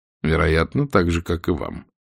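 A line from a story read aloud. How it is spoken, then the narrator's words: Calm. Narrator (Russian): спокойно произнес капитан Блад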